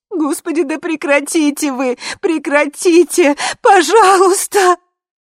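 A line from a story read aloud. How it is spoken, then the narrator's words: Sobbing. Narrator (Russian): И она разрыдалась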